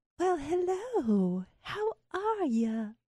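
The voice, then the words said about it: Put-on Southern belle accent. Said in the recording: “She's got a southern accent. She's like a Southern Belle.”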